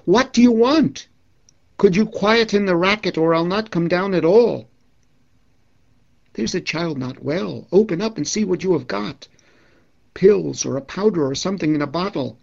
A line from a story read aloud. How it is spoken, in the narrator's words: called out